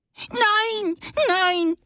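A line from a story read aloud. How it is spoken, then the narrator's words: Shrill squeaky shriek. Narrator (German): kreischte das graue Ding mit quietschiger Stimme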